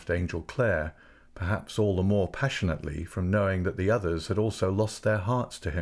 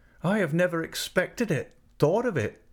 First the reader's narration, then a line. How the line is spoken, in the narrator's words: moaned Retty